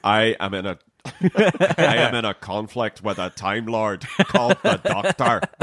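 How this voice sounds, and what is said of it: Northern Irish Dalek voice. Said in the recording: “doing Irish accents ... Like Northern Irish Dalek.”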